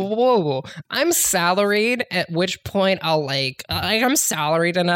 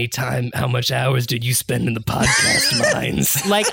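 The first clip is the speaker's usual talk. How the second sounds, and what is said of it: Imitates another person's voice. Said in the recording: “That's a very good craziest Jason Kevler impression I've ever heard. ... It's like he's here.”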